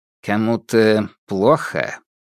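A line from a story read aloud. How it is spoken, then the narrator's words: Grim inquiry. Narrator (Russian): мрачно осведомился Фальк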